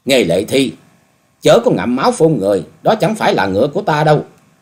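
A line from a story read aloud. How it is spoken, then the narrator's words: Loud angry shout. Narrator (Vietnamese): Dịch Hương Trúc cao giọng quát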